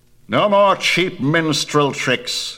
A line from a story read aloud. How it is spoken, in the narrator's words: he cried